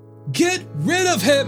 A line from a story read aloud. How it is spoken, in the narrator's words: For the mass of people followed, yelling